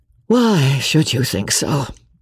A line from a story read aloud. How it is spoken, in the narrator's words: replied he, with a sigh